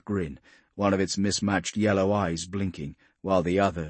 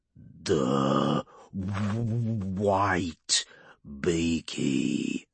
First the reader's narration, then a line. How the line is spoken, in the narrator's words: Urgork rumbled